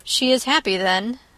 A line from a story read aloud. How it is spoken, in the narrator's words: said dryly